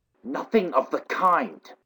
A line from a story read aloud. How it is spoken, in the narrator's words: Cyril whispered angrily